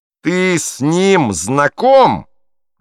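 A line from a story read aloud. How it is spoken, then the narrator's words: Menacing repetition. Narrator (Russian): грозно повторил Котлер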